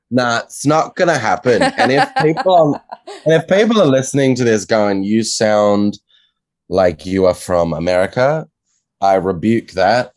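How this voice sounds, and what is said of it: Australian accent. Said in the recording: “lose the Australian accent completely”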